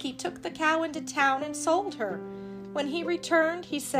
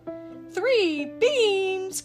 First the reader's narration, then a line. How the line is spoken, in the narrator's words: cried Donald and Goofy